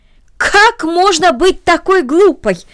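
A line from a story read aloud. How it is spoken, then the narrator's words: Aunt's exclamation. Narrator (Russian): воскликнула тетя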